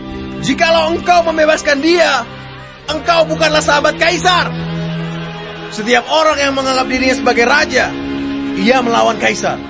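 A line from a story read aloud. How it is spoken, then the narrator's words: Crowd shouting. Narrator (Indonesian): orang-orang Yahudi berteriak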